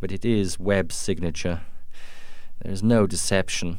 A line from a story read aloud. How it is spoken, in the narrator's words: Duncan said sadly